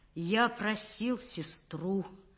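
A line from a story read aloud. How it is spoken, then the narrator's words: Empty, effortful voice. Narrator (Russian): собираясь силами, потом пустым голосом выговорил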